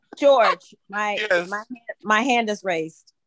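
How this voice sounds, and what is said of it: Imitates another person's voice. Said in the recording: “I'll continue with the Patrick impersonation, please.”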